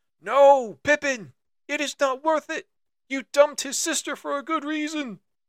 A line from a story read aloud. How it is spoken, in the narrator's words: Merry screams